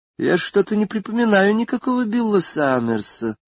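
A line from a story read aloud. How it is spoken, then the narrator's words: Thoughtful woman. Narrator (Russian): сказала она задумчиво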